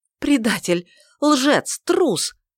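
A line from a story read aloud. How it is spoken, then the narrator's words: Breathless gasping. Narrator (Russian): С трудом, борясь с нехваткой воздуха, выдохнула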